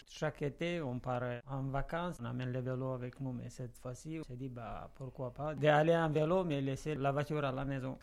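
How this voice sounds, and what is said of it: Moldovan accent in French. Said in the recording (French): “En entendant votre bel accent, monsieur, vous êtes d'origine moldave ... Je suis d'origine moldave ... C'est pour ça que j'ai l'accent. Je l'ai gardé toujours avec tous les efforts, mais quand même l'accent il est resté.”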